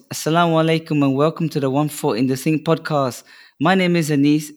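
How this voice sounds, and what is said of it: Hoarse, nearly lost voice. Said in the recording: “I have lost my voice.”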